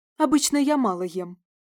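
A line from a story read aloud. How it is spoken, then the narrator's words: Embarrassed snapping retort. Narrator (Russian): огрызнулась я, хотя щеки предательски запылали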